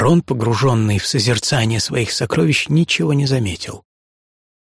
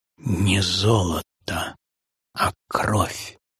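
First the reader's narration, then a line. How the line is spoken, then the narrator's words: Muttered through teeth. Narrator (Russian): старик пробормотал сквозь зубы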